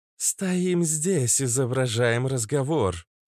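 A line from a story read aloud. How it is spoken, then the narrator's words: Metallic voice. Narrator (Russian): сказала Иштар металлическим голосом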